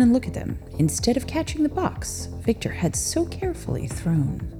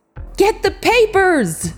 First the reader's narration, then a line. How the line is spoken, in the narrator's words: Samson screamed into the night